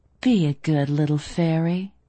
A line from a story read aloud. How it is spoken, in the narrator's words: I purred